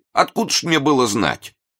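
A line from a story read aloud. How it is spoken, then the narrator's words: Indignant. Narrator (Russian): Тут заговорил и англичанин, обращаясь к новому человеку и возмущенно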